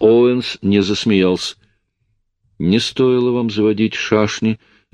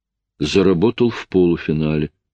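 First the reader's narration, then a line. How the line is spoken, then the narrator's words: Mumble. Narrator (Russian): промямлил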